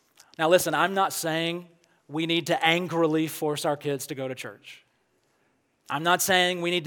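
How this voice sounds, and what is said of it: Usual voice. Nothing is said of it.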